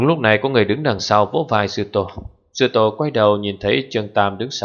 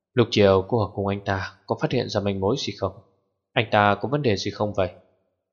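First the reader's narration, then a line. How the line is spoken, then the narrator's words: Whispering. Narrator (Vietnamese): Anh ta thì thầm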